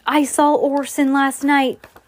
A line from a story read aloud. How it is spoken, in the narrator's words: Jasper Erie exclaimed